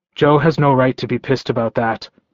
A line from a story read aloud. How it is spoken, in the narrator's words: I growled